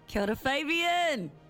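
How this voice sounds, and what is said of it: Yelling loudly. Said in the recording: “I don't know why I'm yelling.”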